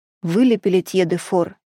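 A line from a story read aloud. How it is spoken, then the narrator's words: Plain question. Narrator (Russian): спросил Пари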